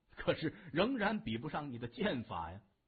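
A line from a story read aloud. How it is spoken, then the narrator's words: With a smile. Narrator (Chinese): 任长风却一笑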